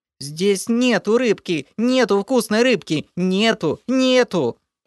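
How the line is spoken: Frightened shrieking creature. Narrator (Russian): От перепуганного визга лохра

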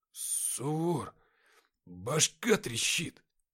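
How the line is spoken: Muttering. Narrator (Russian): забормотал Никита

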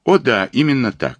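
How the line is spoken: Plain. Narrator (Russian): сказал Оте

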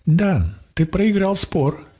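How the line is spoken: Cheerful. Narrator (Russian): весело сказала Заре

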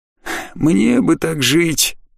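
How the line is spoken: Exaggeratedly envious sigh. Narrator (Russian): подчеркнуто завистливо вздохнул невидимый кто-то

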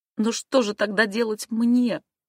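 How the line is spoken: Pleading. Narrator (Russian): взмолилась Эмма

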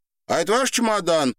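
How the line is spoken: Boy shouting. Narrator (Russian): крикнул мальчик

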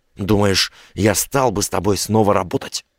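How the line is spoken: Hissing. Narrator (Russian): прошипел Сорокин

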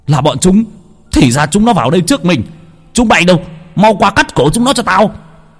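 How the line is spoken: Angry hiss. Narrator (Vietnamese): Bọn Thái Lan tức giận rít lên

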